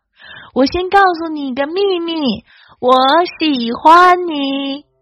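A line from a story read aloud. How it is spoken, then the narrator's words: Loud. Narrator (Chinese): 狐狸也大声说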